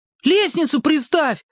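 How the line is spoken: Shouted. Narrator (Russian): крикнул ему Петька

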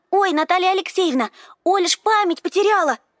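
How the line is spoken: Happy blurt. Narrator (Russian): радостно ляпнула Ира

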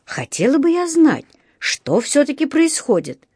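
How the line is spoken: Exclamation. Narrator (Russian): воскликнула миссис Браун

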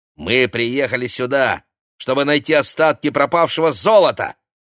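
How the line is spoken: Spiteful retort. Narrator (Russian): злобно бросила Ксения

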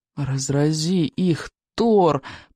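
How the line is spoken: Moaned. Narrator (Russian): простонал Рыбьенок

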